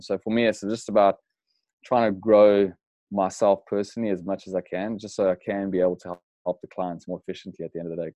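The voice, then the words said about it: South African accent. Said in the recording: “So that's where the accent's coming from for all the listeners. The South African accent. ... It's not Australian”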